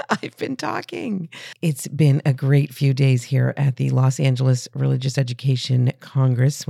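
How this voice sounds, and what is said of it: Hoarse, strained voice. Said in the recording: “if it sounds like I have lost my voice, I have.”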